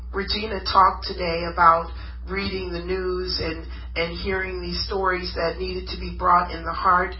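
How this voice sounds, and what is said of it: Congested voice from a cold. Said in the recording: “I have a cold”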